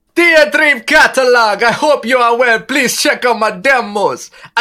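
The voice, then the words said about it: Put-on Jamaican accent. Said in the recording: “Give us a new accent that you've never done before, like brand new. ... Jamaican?”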